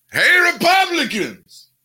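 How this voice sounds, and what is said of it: Al Sharpton impression. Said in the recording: “your great Al Sharpton imitation”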